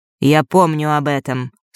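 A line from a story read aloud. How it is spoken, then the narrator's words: Dry, cutting off. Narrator (Russian): сухо оборвал он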